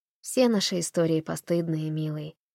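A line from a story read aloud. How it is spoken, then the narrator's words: Gentle. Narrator (Russian): ласково заметила Фанни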